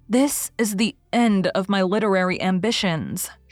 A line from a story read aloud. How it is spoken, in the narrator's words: she said bitterly